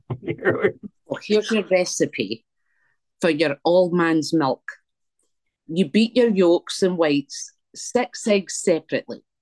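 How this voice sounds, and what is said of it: Put-on old Scottish accent. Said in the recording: “in your best Scottish voice. ... Let me hear this in your best Scot. ... Your best 1800 Scot”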